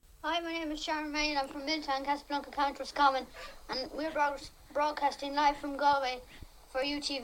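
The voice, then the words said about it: Very strong accent. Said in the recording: “my accent... Very strong”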